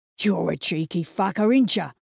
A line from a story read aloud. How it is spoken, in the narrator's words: growled McNally